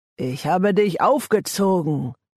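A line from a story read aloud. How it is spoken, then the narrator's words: Growled. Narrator (German): knurrte Matt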